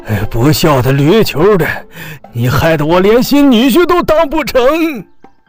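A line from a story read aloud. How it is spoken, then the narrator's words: Breathless cursing. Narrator (Chinese): 焦老财一边喘气休息，一边继续谩骂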